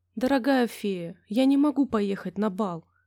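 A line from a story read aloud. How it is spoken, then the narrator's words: Sad. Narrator (Russian): печально произнесла Золушка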